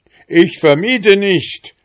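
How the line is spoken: Toadstool shouting again. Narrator (German): schrie der Giftpilz noch einmal

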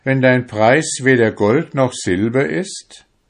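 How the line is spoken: Exclaiming. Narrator (German): rief er aus

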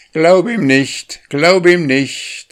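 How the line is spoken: Called out. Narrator (German): rief er

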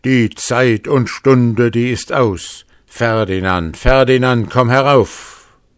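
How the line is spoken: Gruesome devilish call. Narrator (German): der Altteufel rief mit greulicher Stimme

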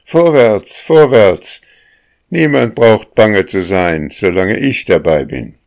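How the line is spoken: Called out. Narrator (German): der Sonnenkopf ... rief

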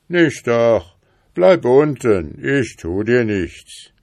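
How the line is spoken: Wild animal calling out. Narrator (German): rief das wilde Tier ihm zu

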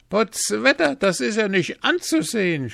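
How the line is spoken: Shouting. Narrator (German): schrie Hans, als sie nie trafen

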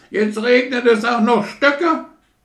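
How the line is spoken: Goose screaming. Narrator (German): schrie die Gans

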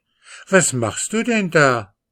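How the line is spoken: Astonished exclamation. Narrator (German): rief Mascha erstaunt

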